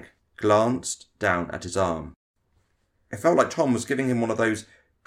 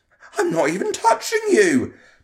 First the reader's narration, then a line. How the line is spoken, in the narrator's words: Tom exclaimed, sounding hurt at being falsely accused